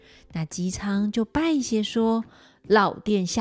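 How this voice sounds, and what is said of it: Usual voice. Nothing is said of it.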